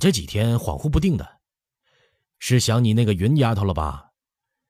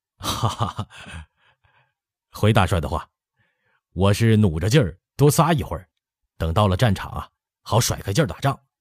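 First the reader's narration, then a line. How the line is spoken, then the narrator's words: Laughing. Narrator (Chinese): 海兰察笑道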